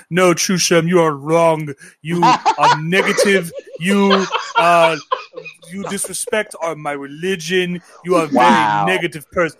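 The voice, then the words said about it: Put-on foreign accent. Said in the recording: “why am I doing that accent right now?”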